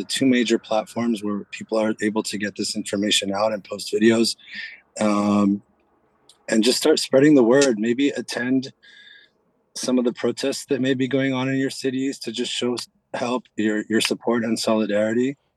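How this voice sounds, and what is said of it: Slightly hoarse voice. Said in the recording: “my voice is a little hoarse. There's a lot of yelling.”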